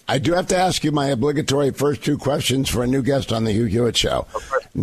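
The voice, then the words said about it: Hoarse voice from laryngitis. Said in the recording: “I've got laryngitis ... the thing about laryngitis is it's not very subtle, so I picked up on that.”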